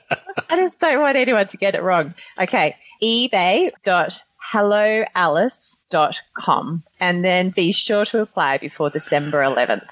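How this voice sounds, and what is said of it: Speaks with a noticeable accent. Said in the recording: “I love your accent. I want to hear you say it.”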